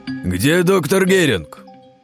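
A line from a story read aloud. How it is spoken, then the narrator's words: Shouted by commander. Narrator (Russian): выкрикнул один из штурмовиков, кажется, их командир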